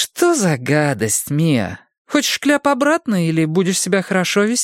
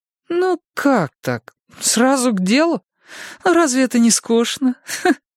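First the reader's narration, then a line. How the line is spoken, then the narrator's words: Laughing. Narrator (Russian): засмеялась Карен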